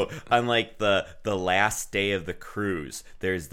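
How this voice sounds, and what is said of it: Usual voice. Nothing is said of it.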